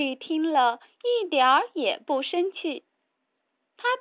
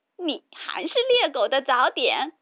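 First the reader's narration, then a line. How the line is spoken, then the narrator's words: Mocking. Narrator (Chinese): 两个哥哥还是取笑他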